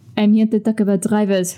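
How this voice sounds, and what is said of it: Put-on French accent. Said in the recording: “what should I call my French accent?”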